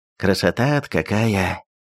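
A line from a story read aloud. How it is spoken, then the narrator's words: Quietly spoken. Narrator (Russian): тихо молвил Никита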